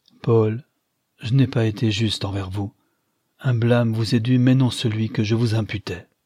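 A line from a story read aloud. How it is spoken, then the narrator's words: Sighing after a pause. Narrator (French): Holman reprit qu'au bout d'un instant, avec un soupir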